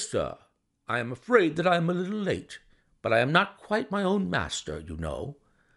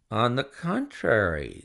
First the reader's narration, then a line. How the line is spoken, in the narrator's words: said Holmes quietly